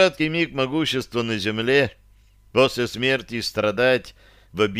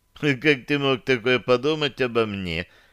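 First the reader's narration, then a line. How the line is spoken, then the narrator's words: Melodic laugh. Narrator (Russian): мелодично рассмеялась Таша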